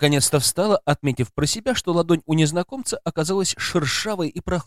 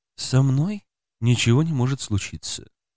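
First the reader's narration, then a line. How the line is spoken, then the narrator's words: Sad, pleasant melodic male voice. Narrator (Russian): как-то грустно ответил мужчина приятным мелодичным голосом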